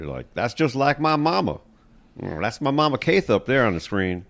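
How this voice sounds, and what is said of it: Put-on Texas accent. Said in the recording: “that was my Texas accent.”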